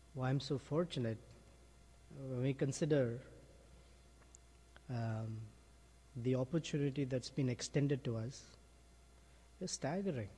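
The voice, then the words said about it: Emotional, choked-up voice. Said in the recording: “I'm a little emotional right now”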